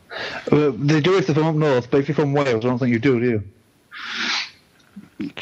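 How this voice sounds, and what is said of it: Northern English accent. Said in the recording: “It's that northern accent... He sounds more northern on the radio”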